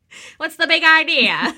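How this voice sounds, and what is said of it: Mock transatlantic accent. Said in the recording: “our good, transatlantic accent”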